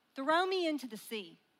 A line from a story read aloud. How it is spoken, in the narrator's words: Jonah said